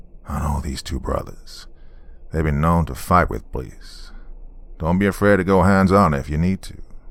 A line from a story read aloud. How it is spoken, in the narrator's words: he said in his slow Texas drawl